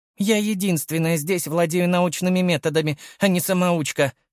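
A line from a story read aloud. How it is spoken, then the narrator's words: Snapped. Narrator (Russian): огрызнулась Катран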